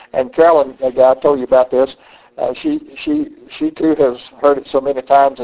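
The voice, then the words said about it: Southern US accent. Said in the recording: “from North Carolina, a Southerner... I just love your accent... people telling me about my accent”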